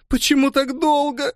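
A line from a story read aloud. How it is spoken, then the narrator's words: Loud sobbing. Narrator (Russian): Зарыдала она навзрыд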